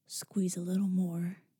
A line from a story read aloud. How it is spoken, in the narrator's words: he said, his voice husky